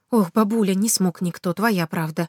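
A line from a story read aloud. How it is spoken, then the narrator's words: Bitter sigh. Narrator (Russian): горько вздохнул Ванечка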